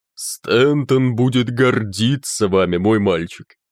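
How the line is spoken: Booming rumble. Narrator (Russian): Ректор прогудев

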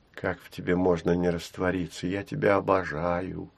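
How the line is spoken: Whisper. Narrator (Russian): шепнула Гуля

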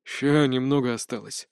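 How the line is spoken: Focused grumbling. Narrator (Russian): пробурчал тот, продолжая сосредоточенно хмуриться

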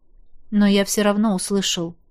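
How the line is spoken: Quiet objection. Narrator (Russian): тихо возразил император

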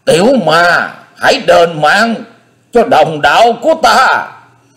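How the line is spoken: Hissing with hatred. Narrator (Vietnamese): Tứ Hải Thiên Dương rít lên giọng căm căm

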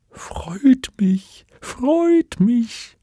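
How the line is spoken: Tiny creature squeaking. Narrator (German): Der Winzling stand auf, ging ein paar Schrittchen auf den Ankömmling zu und piepste

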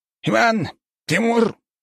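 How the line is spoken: Barking. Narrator (Russian): рявкнул декан

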